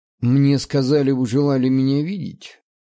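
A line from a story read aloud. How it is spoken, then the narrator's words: Very scornful question. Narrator (Russian): Максимально пренебрежительным тоном спросил я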